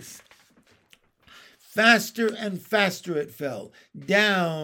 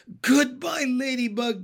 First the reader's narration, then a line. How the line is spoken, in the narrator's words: gasped James